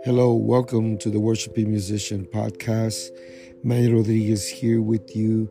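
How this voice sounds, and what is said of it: Hoarse, weak voice. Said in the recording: “I'm a little bit under the weather. I still been having this cough... I've lost my voice.”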